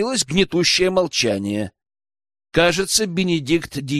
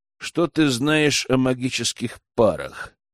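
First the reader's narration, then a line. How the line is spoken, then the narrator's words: Tired utterance. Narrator (Russian): устало вымолвил император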